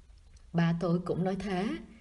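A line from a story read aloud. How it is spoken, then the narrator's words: Quiet chuckle, then sigh. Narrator (Vietnamese): cậu thầm cười, nhưng rất nhanh lại thở dài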